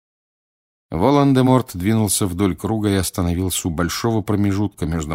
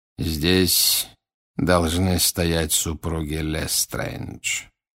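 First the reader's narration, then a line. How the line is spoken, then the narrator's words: Quiet. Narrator (Russian): тихо произнес Волан-де-Морт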